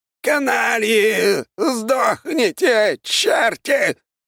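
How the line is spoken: Shouted. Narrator (Russian): выкрикнул Аполлон Генрихович

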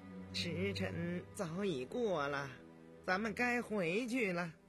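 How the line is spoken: Sighing. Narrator (Chinese): 高无庸打心里叹息了一声，对影帝说

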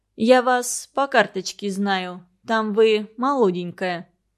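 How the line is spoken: Old woman, through teeth. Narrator (Russian): старуха проговорила сквозь зубы

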